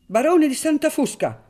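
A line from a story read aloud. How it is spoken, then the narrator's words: Shouted by the judge. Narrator (Italian): gridò finalmente il giudice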